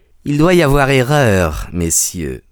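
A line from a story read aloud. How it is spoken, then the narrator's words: Unctuous voice. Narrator (French): dit-il d'une voix onctueuse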